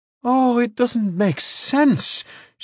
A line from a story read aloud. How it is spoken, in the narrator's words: she exclaimed after a moment